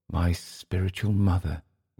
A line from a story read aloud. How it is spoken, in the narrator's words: he said, his voice very low